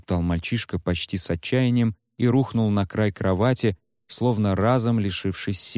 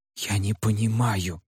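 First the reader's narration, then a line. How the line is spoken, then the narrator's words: Hissed by cat. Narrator (Russian): прошипел кот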